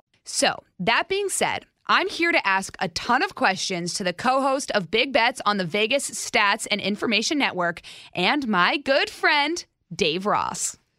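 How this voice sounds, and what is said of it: Excited, upbeat voice. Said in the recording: “I am so excited if you can't hear it in my voice”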